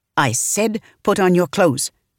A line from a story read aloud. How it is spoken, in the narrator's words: she snapped